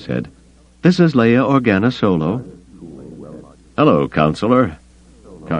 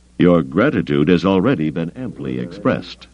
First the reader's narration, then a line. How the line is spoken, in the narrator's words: Carda said dryly